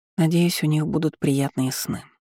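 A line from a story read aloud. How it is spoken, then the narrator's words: Tearful mumble. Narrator (Russian): пробормотала я, не собираясь скрывать того, что по моим щекам текли слезы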